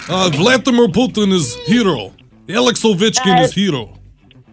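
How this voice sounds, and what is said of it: Convincing put-on foreign accent. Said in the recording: “The accent's perfect.”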